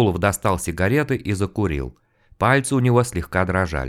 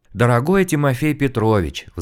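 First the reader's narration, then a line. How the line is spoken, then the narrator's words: Sighing. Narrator (Russian): вздохнул мужчина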